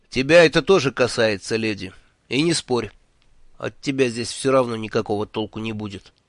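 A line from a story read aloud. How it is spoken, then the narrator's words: Stern. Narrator (Russian): строго сказал ей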